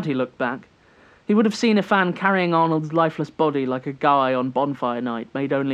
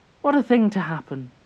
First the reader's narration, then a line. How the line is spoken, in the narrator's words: she said, her voice sweet and twinkling like wind chimes, as it always was